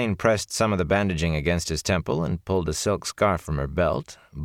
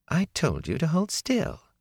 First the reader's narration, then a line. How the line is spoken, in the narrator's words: she said calmly